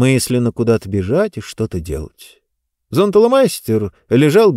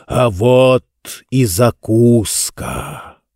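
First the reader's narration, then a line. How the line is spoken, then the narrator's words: Booming thunderous giant voice. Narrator (Russian): раскрылся километровый рот и, собрав вместе воздушные токи, громовым голосом пророкотал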